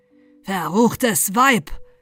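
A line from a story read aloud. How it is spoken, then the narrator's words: Thundering, terrible voice. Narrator (German): donnerte er mit furchtbarer Stimme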